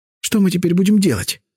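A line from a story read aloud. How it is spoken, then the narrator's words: Repeating through tears. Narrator (Russian): повторяла она сквозь слезы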